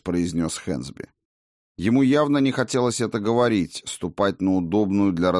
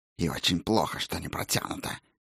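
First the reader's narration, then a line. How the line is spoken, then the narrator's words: Hiss. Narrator (Russian): прошипела оружейница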